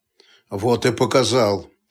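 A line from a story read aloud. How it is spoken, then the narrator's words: Muttering. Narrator (Russian): пробормотал Столяров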